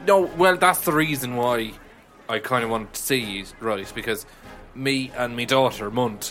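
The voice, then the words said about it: Put-on Irish accent. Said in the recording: “I have an Irish accent.”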